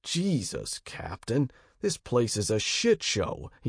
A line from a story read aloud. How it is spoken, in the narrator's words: he growled